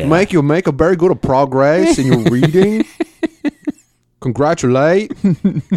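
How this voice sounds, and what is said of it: Good put-on Portuguese accent. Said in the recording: “That was a pretty good Portuguese accent ... Yeah, you were pretty good.”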